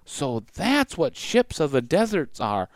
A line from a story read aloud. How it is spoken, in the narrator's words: Maddie whispered to Jack